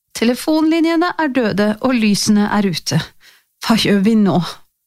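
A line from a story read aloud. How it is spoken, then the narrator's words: Tired voice. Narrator (Norwegian): sa hun med sliten stemme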